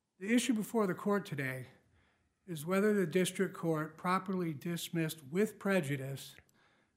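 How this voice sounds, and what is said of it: Hoarse, strained voice. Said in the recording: “I seem to be losing my voice.”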